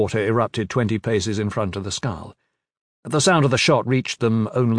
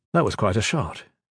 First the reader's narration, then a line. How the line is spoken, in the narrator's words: Gavin said